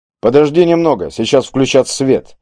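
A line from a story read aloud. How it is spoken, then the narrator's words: Calm reply. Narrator (Russian): все так же спокойно ответил голос из пятна света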